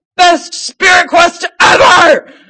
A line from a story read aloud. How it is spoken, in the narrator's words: He howls after them